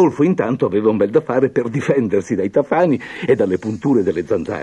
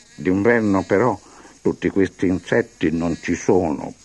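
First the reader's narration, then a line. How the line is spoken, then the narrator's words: Muttering. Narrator (Italian): borbottò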